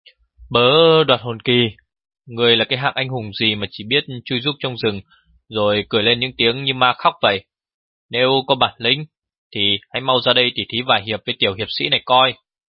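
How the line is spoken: Calm, loud call. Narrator (Vietnamese): Cậu cứ ung dung lớn tiếng gọi, nói in cả lên

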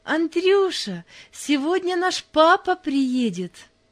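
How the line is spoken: Joyful. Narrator (Russian): радостно сказала

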